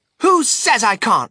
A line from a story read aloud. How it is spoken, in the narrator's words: shouted Veruca